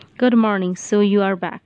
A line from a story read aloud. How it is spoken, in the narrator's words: said Turton icily